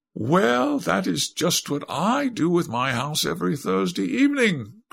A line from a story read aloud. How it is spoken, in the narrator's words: cried Lady Windermere, laughing